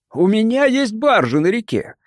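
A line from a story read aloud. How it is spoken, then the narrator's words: Cheerful declaration. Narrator (Russian): весело заявил Карр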